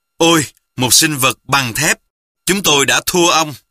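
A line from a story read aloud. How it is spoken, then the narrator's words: Exclamation. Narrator (Vietnamese): một đại tá CIA đã phải thốt lên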